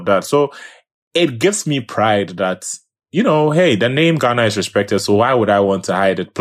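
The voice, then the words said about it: Ghanaian accent. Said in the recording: “this accent is not changing for anybody. It's still going to be as Ghanaian as it goes.”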